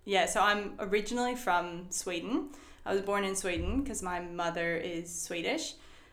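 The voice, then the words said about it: Mixed accent, partly Australian-sounding. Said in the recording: “The accent. It's a killer. ... It's a bit of a weird accent. ... they say that I sound half Australian”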